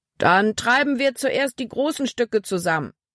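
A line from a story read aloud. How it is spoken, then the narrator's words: Calling out. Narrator (German): rief Kapitän Norstad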